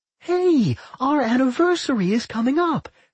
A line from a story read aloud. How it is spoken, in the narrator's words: Claire said brightly